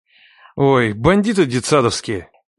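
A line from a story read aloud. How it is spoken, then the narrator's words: Sighing. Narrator (Russian): Вздохнул Леха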